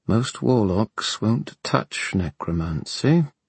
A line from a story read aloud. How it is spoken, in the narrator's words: he said quietly